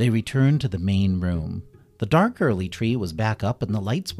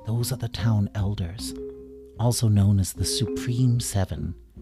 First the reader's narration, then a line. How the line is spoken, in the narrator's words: Bunny whispered to Kitty, she said